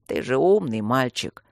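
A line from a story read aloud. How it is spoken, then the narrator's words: Weary hiss. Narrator (Russian): устало прошипел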